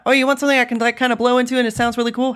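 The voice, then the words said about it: Mid-Atlantic American accent. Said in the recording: “I'm saying this like in my very like Mid-Atlantic working accent there”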